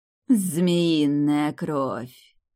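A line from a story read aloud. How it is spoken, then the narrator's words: Close female voice, slight lisp. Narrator (Russian): Прозвучал совсем рядом женский голос, странно знакомый, с почти незаметным присвистом пришептыванием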